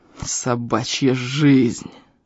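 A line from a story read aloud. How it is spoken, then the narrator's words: Strongman through gritted teeth. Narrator (Russian): процедил силач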